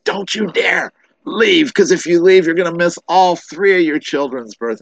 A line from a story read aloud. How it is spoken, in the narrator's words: screamed and says